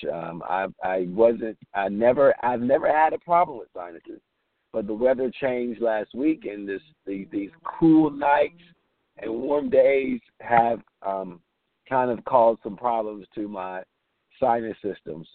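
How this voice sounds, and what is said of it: Congested, stuffy sinus-affected voice. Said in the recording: “battling some sinus allergies, as you can probably hear ... excuse my voice”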